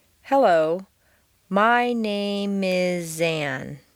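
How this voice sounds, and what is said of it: Slow, drawn-out, exaggerated word linking. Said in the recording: “I'm going to exaggerate the linking of the words, drawing it out much longer than would be natural.”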